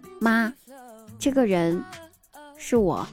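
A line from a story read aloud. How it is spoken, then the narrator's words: Quiet answer. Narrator (Chinese): 小声的回答道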